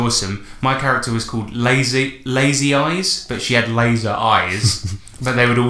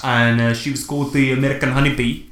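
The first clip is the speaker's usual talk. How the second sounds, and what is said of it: Put-on South African accent. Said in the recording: “I don't know why I'm saying it in a South African accent.”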